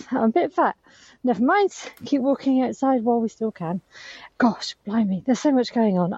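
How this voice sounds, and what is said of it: Out of breath while walking. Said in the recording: “I'm a bit out of breath.”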